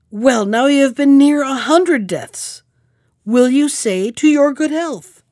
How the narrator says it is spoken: whose fury was greater than ever, but who cried

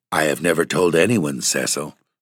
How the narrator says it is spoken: said Virginia, gravely

